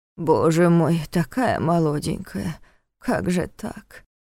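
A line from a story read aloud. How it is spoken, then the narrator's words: Elderly woman muttering. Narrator (Russian): пробормотала рядом с ним пожилая чешка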